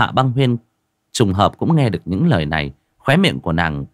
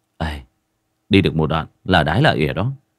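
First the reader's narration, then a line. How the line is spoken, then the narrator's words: Muttering, unsure. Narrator (Vietnamese): cũng không biết, giọng cứ lẩm bẩm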